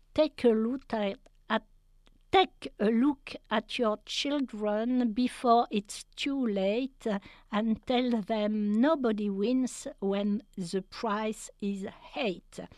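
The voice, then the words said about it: English spoken with French accent. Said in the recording (French): “pardon pour mon accent anglais”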